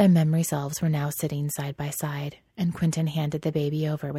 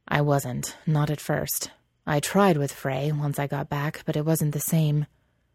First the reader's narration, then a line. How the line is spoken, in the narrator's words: Elliot sighed